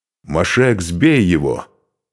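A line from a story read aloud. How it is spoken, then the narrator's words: Barked. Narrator (Russian): рявкнул Духарев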